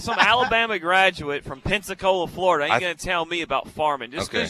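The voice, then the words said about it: Exaggerated thick Southern accent. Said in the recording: “is he really leaning into his accent right now? ... He sounds like Brian Kelly when he got introduced at halftime. ... You are leaning in. You're thickening up that southern, yeah, accent, just a little bit.”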